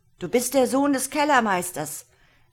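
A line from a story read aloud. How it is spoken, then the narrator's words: Giant calling out. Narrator (German): rief der Riese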